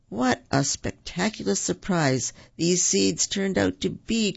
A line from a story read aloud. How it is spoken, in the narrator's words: cried Tigger